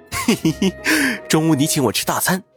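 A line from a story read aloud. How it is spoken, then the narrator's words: Mischievous snicker. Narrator (Chinese): 云峰一脸的坏笑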